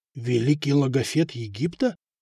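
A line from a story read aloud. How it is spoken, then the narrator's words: Merchants whispering. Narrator (Russian): зашептались купцы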